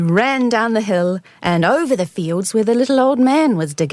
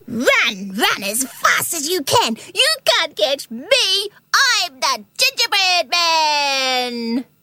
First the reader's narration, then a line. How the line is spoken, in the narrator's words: as he ran, he shouted